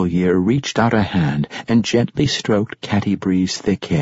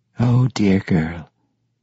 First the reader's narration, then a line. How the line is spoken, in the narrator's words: said, her voice as smooth as the flower's petal